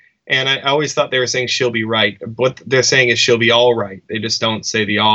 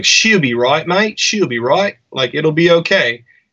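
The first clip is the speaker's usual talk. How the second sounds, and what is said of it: Put-on Australian accent. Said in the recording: “you nailed that accent ... who could do a better accent ... we would practice our Australian”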